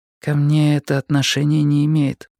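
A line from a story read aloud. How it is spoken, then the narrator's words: Muffled, hollow voice. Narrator (Russian): глухо проговорила она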